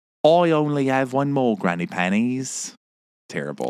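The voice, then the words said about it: Very bad British accent. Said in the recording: “the world's worst British accent”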